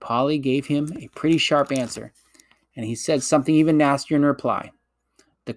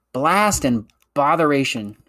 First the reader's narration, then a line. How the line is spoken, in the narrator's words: exclaimed Diggory